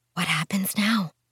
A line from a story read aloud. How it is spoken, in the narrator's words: Twee whispered